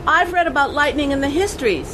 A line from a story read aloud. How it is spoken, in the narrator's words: she shouted back